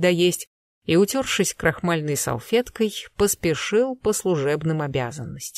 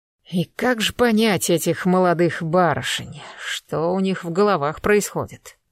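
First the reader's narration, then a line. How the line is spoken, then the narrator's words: Wistful sigh. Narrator (Russian): вздохнул, вспоминавший своих дочерей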